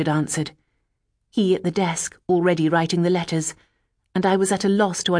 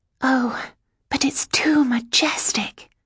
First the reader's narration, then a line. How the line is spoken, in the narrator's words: I whispered